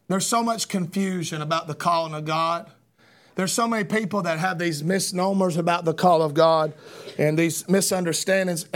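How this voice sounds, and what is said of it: Hoarse, weakened voice. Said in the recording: “I ain't got much of a voice... now I've lost my voice.”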